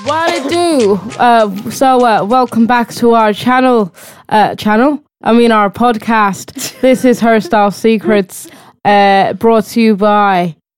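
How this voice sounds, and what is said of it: Put-on Irish accent. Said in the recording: “not going to get all Irish ... I'm talking in an Irish accent”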